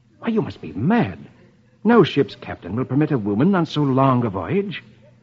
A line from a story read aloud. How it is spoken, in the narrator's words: Brandon exclaims